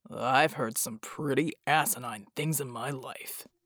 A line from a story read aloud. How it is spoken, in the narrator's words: Bull muttered